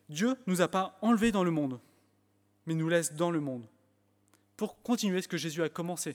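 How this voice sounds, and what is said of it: French spoken with English accent. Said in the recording (French): “mon accent, on me l'a fait reprocher, enfin on me l'a montré que mon accent anglais était sympathique”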